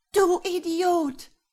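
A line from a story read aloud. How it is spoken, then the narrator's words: Shouted while falling. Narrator (German): schrie Maria, als sie fielen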